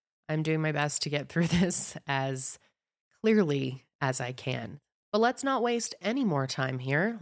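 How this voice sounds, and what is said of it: Slightly nasal, congested voice. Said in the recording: “I'm currently sick. I sound a little nasally. It's not that bad. I bet most of you won't notice”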